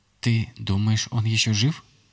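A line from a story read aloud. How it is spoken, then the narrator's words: Barely audible girl. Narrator (Russian): еле слышно произнесла моя племянница Тана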